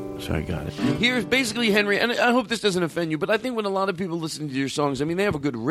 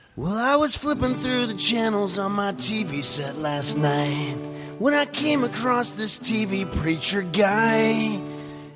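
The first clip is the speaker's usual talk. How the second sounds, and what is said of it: Imitates another person's voice. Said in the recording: “the best Henry Phillips impersonation I could do ... No one really hears the words. They just hear his inflections ... my best impersonation of what the audience hears”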